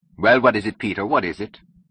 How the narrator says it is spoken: testily, and asked

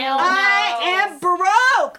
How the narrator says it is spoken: I yelled

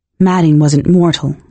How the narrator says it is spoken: I said

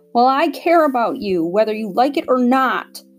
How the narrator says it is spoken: Tom screamed

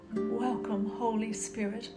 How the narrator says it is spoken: whispered

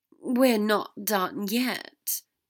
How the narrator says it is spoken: Draco said wearily

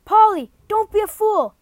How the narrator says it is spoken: shouted

